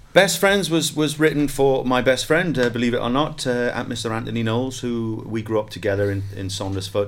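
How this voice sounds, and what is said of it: Welsh accent with slight Geordie twang. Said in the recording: “I love your Pembrokeshire accent ... It's got a slight Geordie twang in there”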